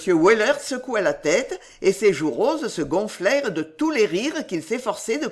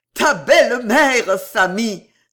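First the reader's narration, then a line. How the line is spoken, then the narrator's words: Exclaiming. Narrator (French): s'écria le gros cocher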